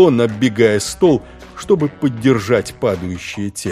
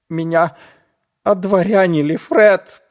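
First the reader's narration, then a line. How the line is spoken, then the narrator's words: Groaned. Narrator (Russian): простонал Шнобби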